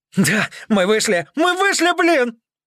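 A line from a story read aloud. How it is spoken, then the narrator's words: Yelling. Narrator (Russian): заорал Макс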